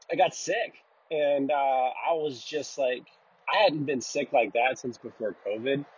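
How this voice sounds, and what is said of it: Congested sick-sounding voice. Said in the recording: “you can hear it in my voice. I'm still kind of getting over it. My voice is just a little congested.”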